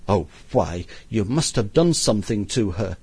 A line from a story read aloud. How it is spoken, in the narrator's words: says the mother indignantly